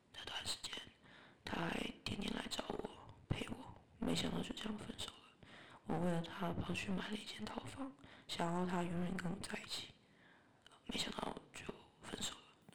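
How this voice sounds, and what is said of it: Speaking softly, quietly. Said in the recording (Chinese): “继续小声的说话”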